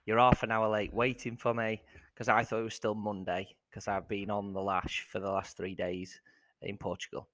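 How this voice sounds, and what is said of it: Croaky hoarse voice. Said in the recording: “if my voice sounds a bit croaky, it's because I've been shouting for three days”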